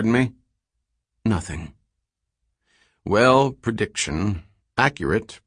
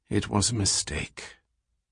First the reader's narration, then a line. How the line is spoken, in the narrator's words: muttered